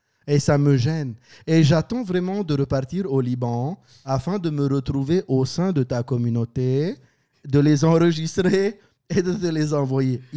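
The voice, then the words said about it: Put-on Lebanese Christian French accent. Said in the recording (French): “L'accent est très bien fait ... l'accent libanais chrétien que je pratique”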